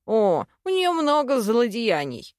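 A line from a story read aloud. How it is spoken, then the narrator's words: Chuckle. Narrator (Russian): хохотнул Рости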